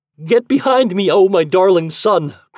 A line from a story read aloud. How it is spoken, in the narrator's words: cried Patroclus